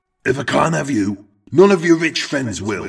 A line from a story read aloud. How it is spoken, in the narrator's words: heard Eric shout